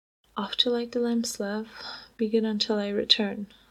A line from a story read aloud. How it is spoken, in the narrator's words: Louis laughed